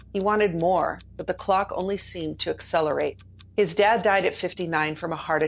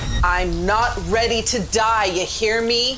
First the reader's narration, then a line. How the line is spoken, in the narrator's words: yelled